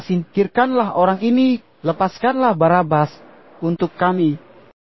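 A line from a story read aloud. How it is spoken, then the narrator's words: Crowd shouting together. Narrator (Indonesian): Akan tetapi orang banyak itu berteriak bersama-sama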